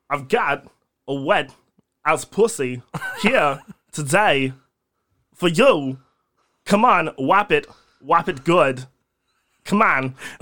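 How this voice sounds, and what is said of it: Imitates another person's voice. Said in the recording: “Or even Christopher Walken. Yeah, Christopher Walken's would be good. ... Not a bad, not a bad impression.”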